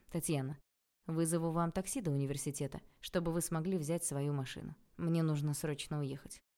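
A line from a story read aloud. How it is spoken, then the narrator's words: Dry, curt tone. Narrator (Russian): сухо сказал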